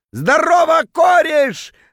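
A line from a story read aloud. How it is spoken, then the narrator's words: Drunken bellow. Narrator (Russian): заорал дурным пьяным голосом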